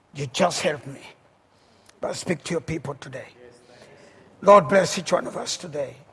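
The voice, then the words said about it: Heavy non-native accent. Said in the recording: “whether it is an accent, a heavy one, because I know I have one”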